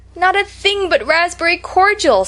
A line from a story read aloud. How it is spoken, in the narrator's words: sobbed Anne